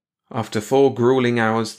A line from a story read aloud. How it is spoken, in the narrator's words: the Red Doctor groaned